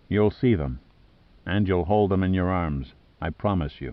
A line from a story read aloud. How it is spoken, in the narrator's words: Then he said gently